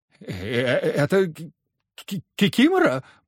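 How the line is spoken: Timid babbling. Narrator (Russian): пролепетала госпожа Абрамова

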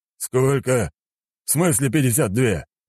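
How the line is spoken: Old man growling. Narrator (Russian): прорычал старик

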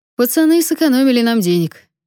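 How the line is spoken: Cheerful. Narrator (Russian): весело добавил дядя Лёва

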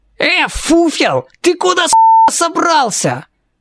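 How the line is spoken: Yelling. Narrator (Russian): Завопил один из четверки

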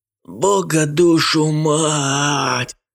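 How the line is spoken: Mumbled through teeth. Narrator (Russian): сквозь зубы промычал Хансен

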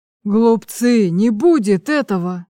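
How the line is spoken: Menacing shout. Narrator (Russian): грозно вскричал Углеб

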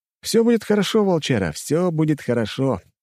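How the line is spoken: Overly cheerful. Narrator (Russian): преувеличенно бодро

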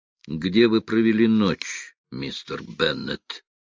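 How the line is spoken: Soft question. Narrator (Russian): мягко спросил

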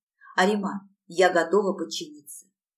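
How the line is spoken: Quiet. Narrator (Russian): тихо произнесла я

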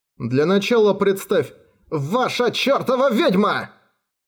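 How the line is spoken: Sudden interrupting exclamation. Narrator (Russian): Вдруг воскликнул монах, не дав договорить Тору

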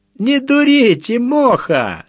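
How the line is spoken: Laughing messenger. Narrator (Russian): засмеялся гонец-порученец Егорка

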